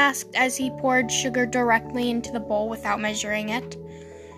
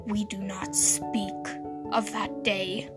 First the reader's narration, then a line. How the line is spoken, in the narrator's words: Cass said quietly